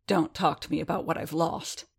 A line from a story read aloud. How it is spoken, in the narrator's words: growled, but it felt breathless and painful